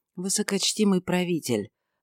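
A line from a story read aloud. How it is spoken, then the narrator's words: Soft respectful. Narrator (Russian): ответил Иосиф мягко и почтительно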